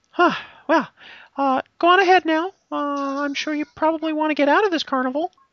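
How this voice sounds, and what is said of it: Funny-sounding female dwarf character voice. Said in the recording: “my voice sounds very, very funny for a female dwarf”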